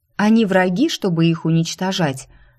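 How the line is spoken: Loud question. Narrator (Russian): громко спросила

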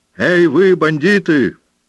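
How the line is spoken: Distant shouting. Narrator (Russian): кричали из-за скалы

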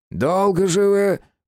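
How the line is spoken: Grumbling. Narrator (Russian): проворчал

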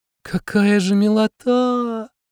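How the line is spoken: Drawn-out drawl. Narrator (Russian): Протянула Ромашка

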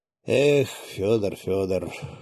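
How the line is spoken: Disappointed sigh. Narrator (Russian): с искренним разочарованием вздохнул он

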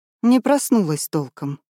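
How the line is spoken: Sighing. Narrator (Russian): вздохнула Агненка

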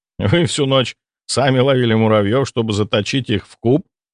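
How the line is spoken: Laughing. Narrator (Russian): рассмеялся я

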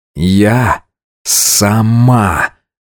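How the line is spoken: Growled back. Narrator (Russian): Алина также рыкнула в ответ

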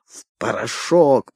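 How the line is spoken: Hissed. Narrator (Russian): прошипел Умбро

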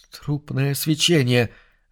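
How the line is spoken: Stuttering mutter. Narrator (Russian): заикаясь, пробормотал Сигнус

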